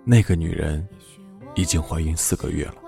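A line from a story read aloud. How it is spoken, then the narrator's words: Soft. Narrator (Chinese): 罗格轻声说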